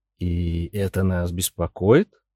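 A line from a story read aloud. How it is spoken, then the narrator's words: Plain question. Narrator (Russian): спросил Гарри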